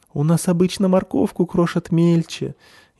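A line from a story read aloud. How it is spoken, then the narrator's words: Frightened squeak. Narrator (Russian): испуганно пищит зверушка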